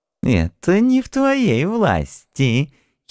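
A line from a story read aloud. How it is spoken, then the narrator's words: Old man giggling. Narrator (Russian): хихикнул старый параноик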